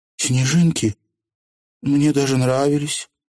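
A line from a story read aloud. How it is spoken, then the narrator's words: Sighing. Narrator (Russian): вздохнула Тиффани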